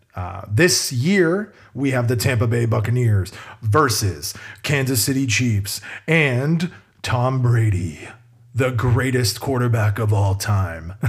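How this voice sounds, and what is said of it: Bad sports announcer voice. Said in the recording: “horrible announcer voice”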